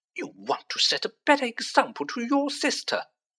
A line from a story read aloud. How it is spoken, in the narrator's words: snapped Mrs